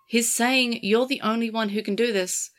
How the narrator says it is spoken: Kosuke said gently

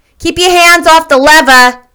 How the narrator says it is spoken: snapped the elevator boy

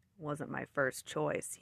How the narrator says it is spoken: grumbled

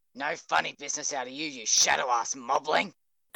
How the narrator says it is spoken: Kachan growled

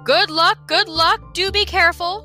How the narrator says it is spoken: shouted the king

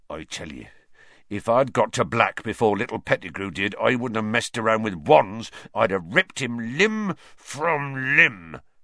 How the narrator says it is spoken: Hagrid growled

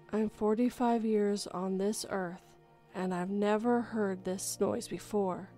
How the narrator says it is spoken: whispered

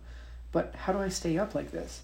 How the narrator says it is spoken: Gavin asked nervously

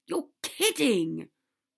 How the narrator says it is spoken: Ron exclaimed

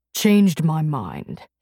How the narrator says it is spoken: he growled

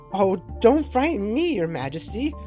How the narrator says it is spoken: exclaimed the nurse

